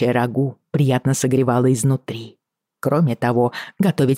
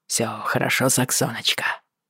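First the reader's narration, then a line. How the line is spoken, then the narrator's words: Hoarse question. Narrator (Russian): хрипло спросил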